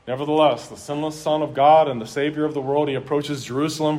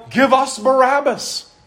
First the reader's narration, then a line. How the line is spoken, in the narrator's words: And the same crowd would yell